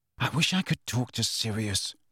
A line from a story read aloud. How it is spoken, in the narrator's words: he muttered